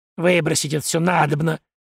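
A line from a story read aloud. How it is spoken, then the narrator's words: Angry muttering. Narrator (Russian): зло забормотала Мира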